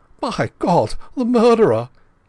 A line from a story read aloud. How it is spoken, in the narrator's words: he cried